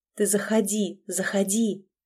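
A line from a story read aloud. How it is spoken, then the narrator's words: Fervent whisper. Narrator (Russian): горячо зашептал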